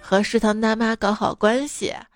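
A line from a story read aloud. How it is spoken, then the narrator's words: Sighing. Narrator (Chinese): 陈中千叹说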